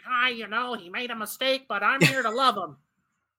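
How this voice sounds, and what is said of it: Impression of Derek Carr. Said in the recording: “That clip of you impersonating Derek Carr.”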